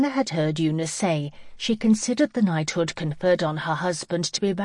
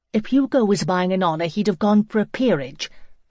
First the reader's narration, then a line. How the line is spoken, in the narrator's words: Hannah said sharply